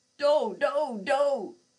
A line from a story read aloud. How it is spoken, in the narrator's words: screamed Parapsi